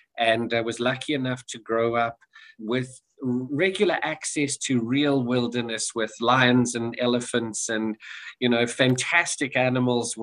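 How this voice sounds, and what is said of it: South African accent. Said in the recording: “You'll tell from my accent, I get told I speak a little funny. Some folks think I'm from Alabama ... I'm South African, born and raised”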